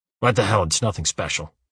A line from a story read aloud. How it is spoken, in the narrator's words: he mumbles